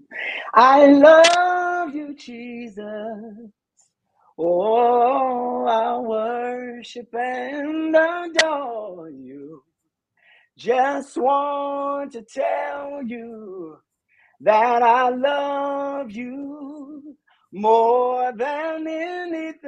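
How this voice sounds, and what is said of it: Raspy singing voice. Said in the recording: “a little so raspy tonight.”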